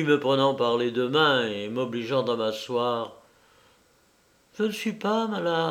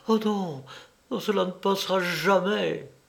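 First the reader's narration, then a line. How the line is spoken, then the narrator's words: Tragic exclamation. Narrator (French): elle s'écria d'un ton tragique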